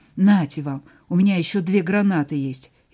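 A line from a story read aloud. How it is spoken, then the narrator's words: Angry. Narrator (Russian): зло добавил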